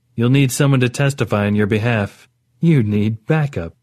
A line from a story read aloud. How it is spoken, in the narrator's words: Orit said, with what was almost a laugh